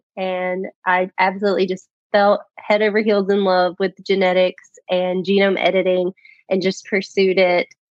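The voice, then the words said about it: Rural regional accent. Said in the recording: “I'm from an extremely rural background. You may notice my accent when I talk.”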